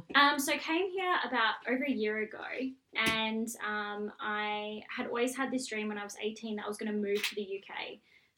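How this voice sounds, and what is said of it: Australian accent. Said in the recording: “Clearly you've got a lovely Australian accent.”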